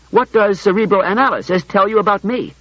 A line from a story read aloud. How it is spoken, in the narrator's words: said Bailey sharply